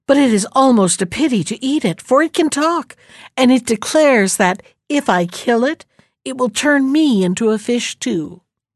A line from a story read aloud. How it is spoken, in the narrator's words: said gaily